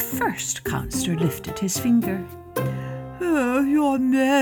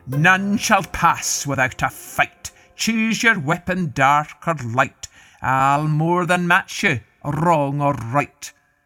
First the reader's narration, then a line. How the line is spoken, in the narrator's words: The giant bellowed